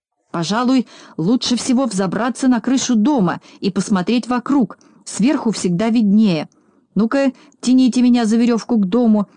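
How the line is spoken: Shout. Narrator (Russian): закричал Знайка

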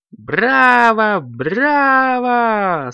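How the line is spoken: Delighted shouting. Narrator (Russian): с восторгом закричали родители Коржику, Карамельке и Компоту, а также их друзьям

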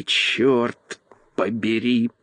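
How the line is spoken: Groaning. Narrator (Russian): простонал он

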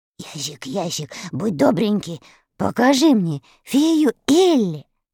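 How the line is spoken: Asking. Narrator (Russian): Страшила попросил

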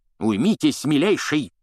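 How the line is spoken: Barking. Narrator (Russian): рявкнул Фадж

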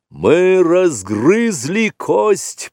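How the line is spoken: Booming voice. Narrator (Russian): прогремел Пхао, сын Пхаоны

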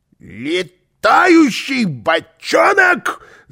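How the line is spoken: Yelled. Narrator (Russian): завопил он

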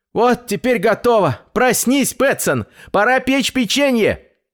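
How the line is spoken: Loud kitten shout. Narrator (Russian): громко крикнул котенок

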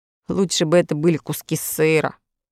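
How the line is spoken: Gloomy boy's reply. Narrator (Russian): мрачно отозвался мальчик

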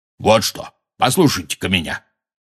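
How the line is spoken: Angry. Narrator (Russian): сердито сказал Хагрид

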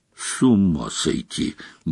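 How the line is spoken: Grumbled. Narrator (Russian): буркнул Гарри

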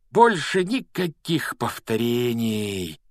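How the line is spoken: Blissful sigh. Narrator (Russian): вздохнул Рон … выражение неописуемого счастья

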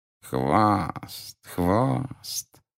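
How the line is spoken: Ingratiating voice. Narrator (Russian): Второй голос зазвучал вкрадчиво

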